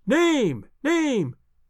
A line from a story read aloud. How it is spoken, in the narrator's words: cried the audience